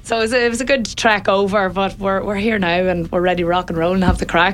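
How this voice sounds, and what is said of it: Northern Irish twang accent. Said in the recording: “I can hear the accent. ... We northern twang.”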